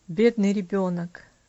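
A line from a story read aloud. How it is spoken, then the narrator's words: Sighing. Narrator (Russian): вздохнул Иваршам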